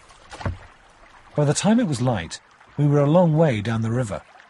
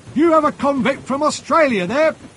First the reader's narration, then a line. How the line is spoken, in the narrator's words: a man shouted